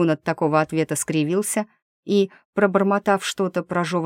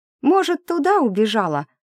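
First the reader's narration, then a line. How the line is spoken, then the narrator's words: Squeaky disguised voice. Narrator (Russian): пискнула я, старательно искажая голос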